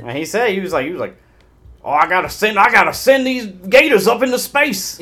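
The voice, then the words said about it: Backwoods hick voice impression. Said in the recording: “my best impression. I can't do the Honeydew voice well... It sounds like what you would expect from a backwoods gator lover like him.”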